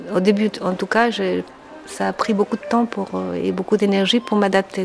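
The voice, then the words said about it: Chilean accent in French. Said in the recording (French): “j'essaie de travailler mon accent et mon articulation ... votre pays, le Chili ... ma nationalité et mon accent ... j'ai un accent”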